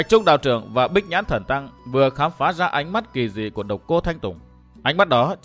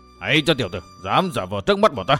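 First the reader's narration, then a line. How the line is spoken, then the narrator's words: Two voices shouting together. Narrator (Vietnamese): Cả hai đồng thanh quát to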